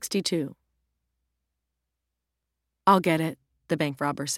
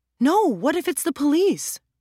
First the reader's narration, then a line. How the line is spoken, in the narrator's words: Ro exclaimed